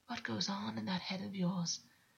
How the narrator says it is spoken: August whispered

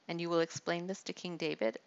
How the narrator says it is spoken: Abishai asked

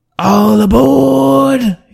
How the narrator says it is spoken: yelled out a voice

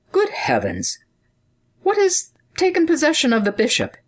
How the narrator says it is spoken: sighed the counselor

